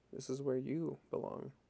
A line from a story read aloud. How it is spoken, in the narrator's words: more softly